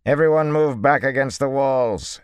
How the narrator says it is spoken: he commanded loudly

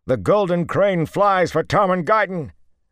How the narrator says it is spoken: Manigan shouted

